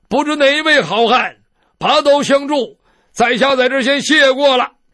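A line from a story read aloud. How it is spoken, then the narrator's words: Loud man's voice. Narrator (Chinese): 那个大胡子的回人高声说了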